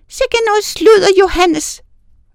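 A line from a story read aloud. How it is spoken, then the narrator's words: Snapping woman. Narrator (Danish): vrissede klokkerkonen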